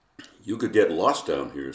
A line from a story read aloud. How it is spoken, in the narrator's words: said Johnny